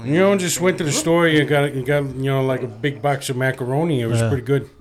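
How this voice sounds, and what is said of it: Fake nasal Canadian accent. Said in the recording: “Throwing a fake accent. ... Try Canadian, though. ... Do a Canadian. ... You talk with a little nasal.”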